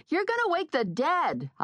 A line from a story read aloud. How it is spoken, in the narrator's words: I yelled back